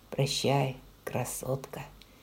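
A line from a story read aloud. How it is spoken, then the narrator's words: Soft. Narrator (Russian): мягко сказал он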